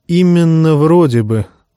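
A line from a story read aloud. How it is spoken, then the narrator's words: Gloomy reply. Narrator (Russian): мрачно ответил разведчик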